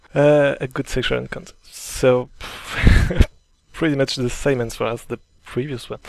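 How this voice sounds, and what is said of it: Non-native English accent. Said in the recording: “I know you're laughing at my accent.”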